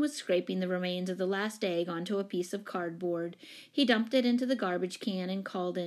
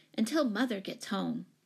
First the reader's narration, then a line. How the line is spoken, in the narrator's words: she said fiercely